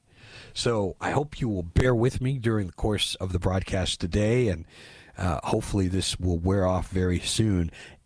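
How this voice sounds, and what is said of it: Voice slightly off, congested. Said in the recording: “my voice is a little bit off. The allergies have finally caught up with me.”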